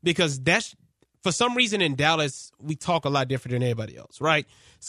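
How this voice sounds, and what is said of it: Dallas accent. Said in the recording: “That just might be my Dallas accent.”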